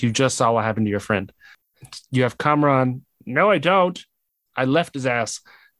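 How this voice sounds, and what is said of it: Najma character voice impression. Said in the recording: “great Najma impression ... Spot on. It was like I was in the room with her.”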